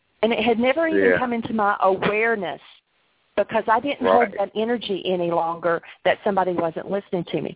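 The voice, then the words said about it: Southern US accent. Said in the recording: “brought up in the South ... You can probably tell by the accent”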